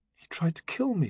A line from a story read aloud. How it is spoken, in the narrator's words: she whispered